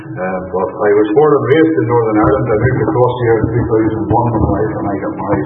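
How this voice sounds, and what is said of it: Northern Irish accent. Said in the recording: “You can tell from my accent... I still haven't lost the Irish accent”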